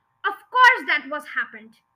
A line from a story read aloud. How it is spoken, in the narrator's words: the mother cried